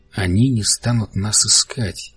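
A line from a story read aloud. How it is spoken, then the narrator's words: Quiet. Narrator (Russian): тихо проговорил Бартоломью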